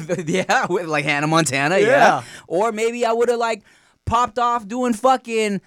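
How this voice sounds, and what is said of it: Usual voice. Nothing is said of it.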